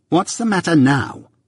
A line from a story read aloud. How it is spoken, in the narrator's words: repeated my sister, more sharply than before